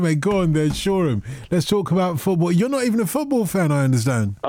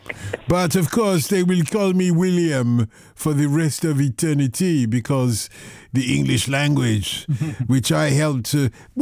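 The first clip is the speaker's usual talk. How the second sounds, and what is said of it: Put-on accent, sounds French. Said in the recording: “What accent am I doing, actually? That's not French, is it? ... You're doing French. ... I was doing Sussex.”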